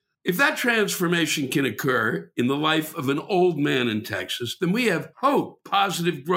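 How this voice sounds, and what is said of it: Usual voice. Nothing is said of it.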